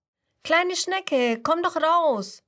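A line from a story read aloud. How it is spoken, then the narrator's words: Friendly call, bee. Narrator (German): ruft ihr die Biene Bianca freundlich zu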